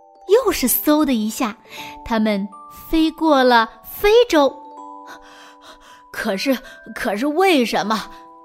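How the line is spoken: Breathless. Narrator (Chinese): 小精灵气喘吁吁地说

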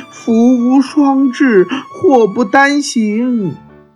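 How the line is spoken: Sighing. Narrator (Chinese): 卡莉姨妈叹了叹气说

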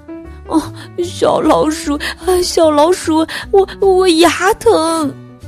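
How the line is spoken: Crying little dinosaur. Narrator (Chinese): 小恐龙哭道

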